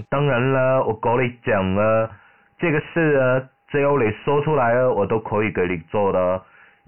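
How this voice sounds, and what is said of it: Southern Chinese accent. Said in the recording (Chinese): “电话里面传出了一个南方人的口音”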